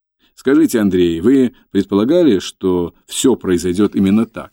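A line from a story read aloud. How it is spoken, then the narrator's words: Plain. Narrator (Russian): спросил Мустафа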